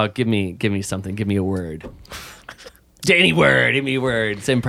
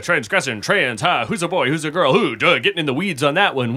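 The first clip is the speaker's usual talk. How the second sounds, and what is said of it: Imitates another person's voice. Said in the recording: “I do a pretty good Robin Williams”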